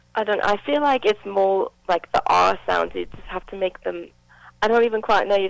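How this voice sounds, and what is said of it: Put-on English accent. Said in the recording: “you have not broken the English accent at all ... Just stick with the English accent. It's good.”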